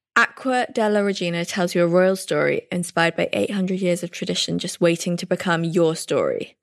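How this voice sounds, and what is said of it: English accent. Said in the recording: “your gorgeous English accent”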